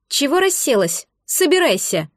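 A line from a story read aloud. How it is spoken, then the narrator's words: Sharp scolding shout. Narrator (Russian): прикрикнула Рея на блондинку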